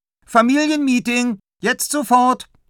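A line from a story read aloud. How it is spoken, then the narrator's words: Calling out. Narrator (German): ruft Tilda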